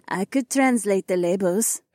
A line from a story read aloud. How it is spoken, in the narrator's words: Haywan giggled